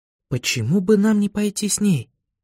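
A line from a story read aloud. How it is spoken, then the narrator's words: Whisper. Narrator (Russian): прошептала Виола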